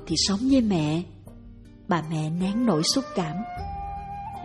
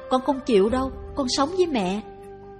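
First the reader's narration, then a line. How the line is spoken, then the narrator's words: Shouting. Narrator (Vietnamese): Tèo la lên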